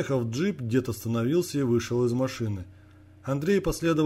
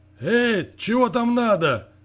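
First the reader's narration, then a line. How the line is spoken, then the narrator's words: Sudden shout. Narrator (Russian): Неожиданно кто-то крикнул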